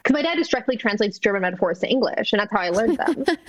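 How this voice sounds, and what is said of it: Mild German accent in English. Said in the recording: “English with a mild German accent.”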